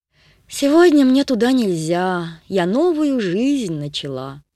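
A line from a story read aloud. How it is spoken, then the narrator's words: Sighing. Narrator (Russian): вздохнула Агата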